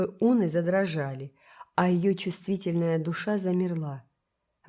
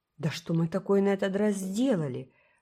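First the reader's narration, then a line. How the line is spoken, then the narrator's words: Astonished exclamation. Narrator (Russian): воскликнула Фейт в изумлении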